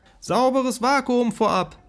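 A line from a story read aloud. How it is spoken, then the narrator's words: Called after. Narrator (German): rief ich ihm nach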